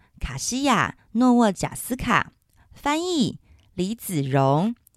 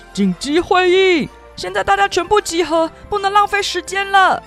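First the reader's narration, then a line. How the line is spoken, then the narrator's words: Shout. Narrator (Chinese): 他大喊地说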